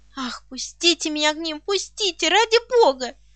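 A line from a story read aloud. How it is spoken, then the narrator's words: Sobbing. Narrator (Russian): Рыдала я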